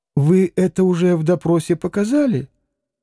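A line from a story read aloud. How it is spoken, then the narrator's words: Calm inquiry. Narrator (Russian): спокойно полюбопытствовал Смердяков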